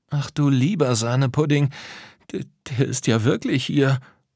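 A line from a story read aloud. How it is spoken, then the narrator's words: Shocked stammering. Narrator (German): stammelte Tom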